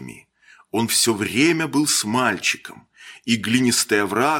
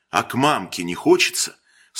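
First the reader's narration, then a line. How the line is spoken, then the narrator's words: Sarcastic question. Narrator (Russian): спросил Холин язвительно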